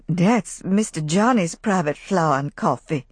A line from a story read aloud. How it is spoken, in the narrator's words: Rebecca muttered frightenedly